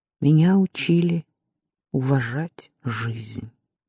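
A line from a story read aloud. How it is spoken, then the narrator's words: Said quietly. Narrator (Russian): тихо сказала она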